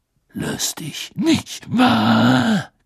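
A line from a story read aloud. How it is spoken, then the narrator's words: Growled. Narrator (German): knurrte er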